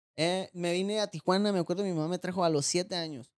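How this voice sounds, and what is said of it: Sinaloan Mexican Spanish accent. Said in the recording (Spanish): “nacido en Los Moches, Sinaloa ... con razón el acento”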